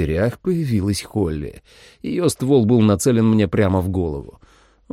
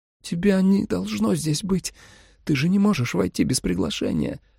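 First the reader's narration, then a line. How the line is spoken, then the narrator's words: Timid babbling. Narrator (Russian): пролепетала Джули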